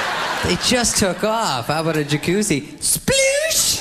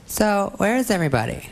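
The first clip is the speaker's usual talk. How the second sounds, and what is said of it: Imitates a high school girl's voice. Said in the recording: “my impression of a girl in high school”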